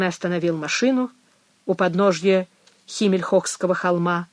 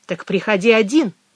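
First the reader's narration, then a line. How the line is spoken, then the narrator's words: Sharp reply. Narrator (Russian): резко ответила Мэгги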